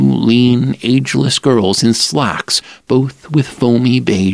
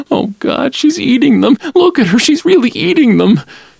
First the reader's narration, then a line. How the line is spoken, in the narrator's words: crying, a plump youth in a plastic car coat and bedroom slippers who kept whimpering